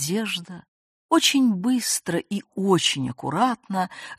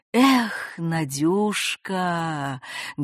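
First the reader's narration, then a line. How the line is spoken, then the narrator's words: Dreamy tone. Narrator (Russian): говорит мечтательным тоном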